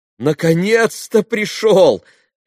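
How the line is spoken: Joyful shout. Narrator (Russian): крикнула она, радостно здороваясь с Алешей

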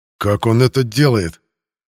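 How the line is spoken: Growling. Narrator (Russian): прорычал Геранд

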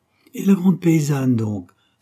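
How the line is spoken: Exclaimed. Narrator (French): s'écria Mahoudeau

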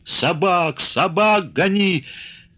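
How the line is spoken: Choking paralyzed wheeze. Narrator (Russian): Паралично хрипел посиневший пан

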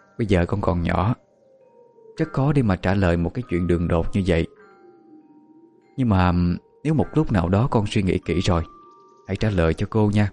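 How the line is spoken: Soft laugh, then speaking. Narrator (Vietnamese): cô Hà chỉ khẽ cười rồi mới nói tiếp

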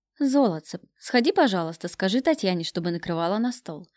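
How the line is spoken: Soft ingratiating request. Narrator (Russian): попросил он мягким, вкрадчивым голосом

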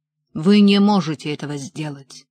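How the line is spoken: Growled. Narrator (Russian): прорычал он

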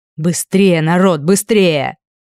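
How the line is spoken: Barked. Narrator (Russian): рявкнул Хит

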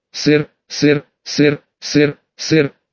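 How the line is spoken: Monotone mechanical repetition. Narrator (Russian): повторял он монотонным механическим голосом

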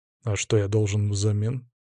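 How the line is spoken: Quiet question. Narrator (Russian): спросил тихо

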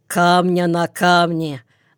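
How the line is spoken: Gloomy confirmation. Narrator (Russian): мрачно подтвердит первый

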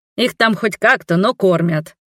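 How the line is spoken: Snapping retort. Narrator (Russian): огрызнулась Марвена

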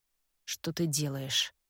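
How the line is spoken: Hoarse question. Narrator (Russian): хрипло спрашивает он

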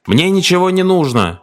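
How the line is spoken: Shouted from the sofa. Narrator (Russian): Не открывая глаз, он крикнул с дивана

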